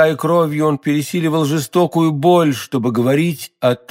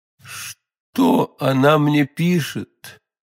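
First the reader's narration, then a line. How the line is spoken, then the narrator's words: Weak voice. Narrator (Russian): слабым голосом спросил Бекингем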